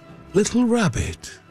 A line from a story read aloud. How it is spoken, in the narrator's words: she said